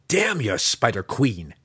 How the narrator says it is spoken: Drizzt spat back

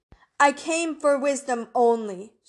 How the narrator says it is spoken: shouted Gilgamesh

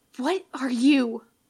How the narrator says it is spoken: Papyrus starts at the touch, snaps back to himself with a strangled little intake of breath and hisses

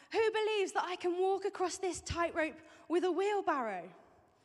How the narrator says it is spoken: he shouted down to the crowd

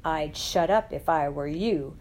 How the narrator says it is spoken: thundered the voice on the dais

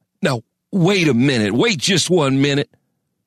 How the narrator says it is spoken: sputtered Crane

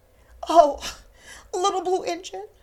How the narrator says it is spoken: cried the dolls and toys

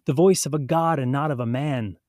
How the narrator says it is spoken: people are pumped, and the people kept shouting

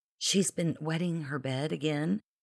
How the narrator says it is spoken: Beverly frowned, whispering

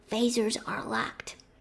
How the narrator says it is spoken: Sulu Whisper replied

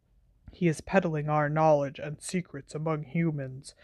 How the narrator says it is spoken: said Magorian quietly

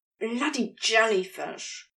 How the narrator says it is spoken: Crowley hisses

